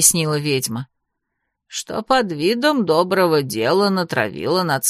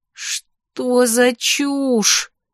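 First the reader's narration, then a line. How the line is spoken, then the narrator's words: Moaning, unable to hold back. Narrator (Russian): простонала я, не в силах больше сдерживаться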